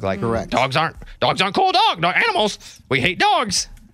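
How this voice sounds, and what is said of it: Parrot voice impression. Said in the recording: “my parrot impression”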